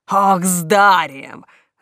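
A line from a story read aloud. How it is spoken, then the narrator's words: Angry hiss. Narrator (Russian): рассерженный коброй прошипел жених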